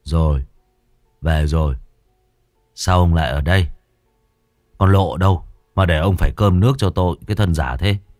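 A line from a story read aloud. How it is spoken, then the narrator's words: Drunken slurring. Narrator (Vietnamese): Huyên đáp lại bố bằng giọng nè nhè như đẫm hơi men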